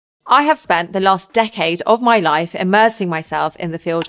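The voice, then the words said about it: British accent. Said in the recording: “She's got the best British accent in the world.”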